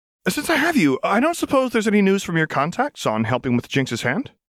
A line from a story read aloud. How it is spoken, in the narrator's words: Lux asked, her tone suddenly bright and conversational